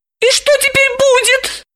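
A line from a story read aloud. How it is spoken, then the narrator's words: Frightened squeak. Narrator (Russian): испуганно пропищала она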